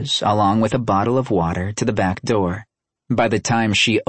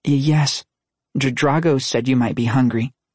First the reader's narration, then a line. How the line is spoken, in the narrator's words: she stammered